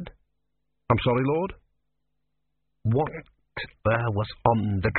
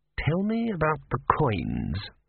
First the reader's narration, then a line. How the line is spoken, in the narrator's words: murmured Vorbis